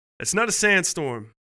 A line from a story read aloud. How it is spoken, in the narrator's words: he yelled back